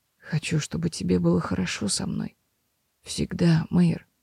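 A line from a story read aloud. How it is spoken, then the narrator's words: Quiet. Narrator (Russian): тихо проговорил Себастьян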